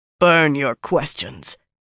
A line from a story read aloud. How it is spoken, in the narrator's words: the young Ashaman growled